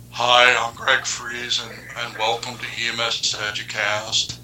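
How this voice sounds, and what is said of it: Imitates another person's voice. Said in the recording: “my Greg Friese impressions ... I think you have too much vocal range in that impersonation. ... Narrow it down to even fewer notes. ... I did notice a little voice inflection in that”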